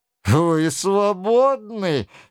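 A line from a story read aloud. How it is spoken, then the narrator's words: Gloomy tone. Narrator (Russian): сказал Анри таким мрачным тоном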